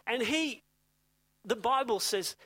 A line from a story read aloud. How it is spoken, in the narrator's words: he cried out to God